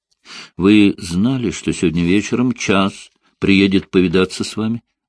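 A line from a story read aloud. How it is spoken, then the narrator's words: Plain question. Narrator (Russian): спросил Линли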